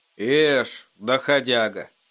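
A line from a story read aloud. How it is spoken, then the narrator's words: Sleepy speech. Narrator (Russian): сонно проговорил Эдди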